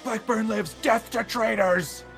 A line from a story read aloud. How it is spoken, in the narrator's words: screaming